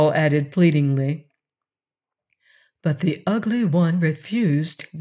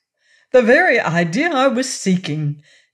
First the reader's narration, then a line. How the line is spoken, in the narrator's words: exclaimed Shaggy joyfully